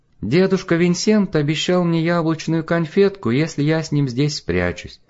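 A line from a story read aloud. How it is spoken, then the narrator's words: Silvery little voice. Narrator (Russian): проговорила она своим серебряным голоском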